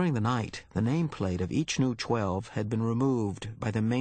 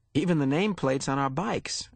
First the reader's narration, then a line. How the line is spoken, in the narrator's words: Fiona laughed